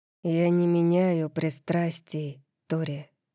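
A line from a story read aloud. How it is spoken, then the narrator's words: Quiet, submissive voice. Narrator (Russian): сказал он тихим голосом, в котором звучала покорность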